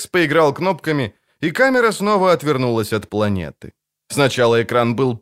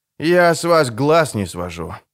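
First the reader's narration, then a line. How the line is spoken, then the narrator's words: Breathless exhale. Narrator (Russian): выдохнул Алекс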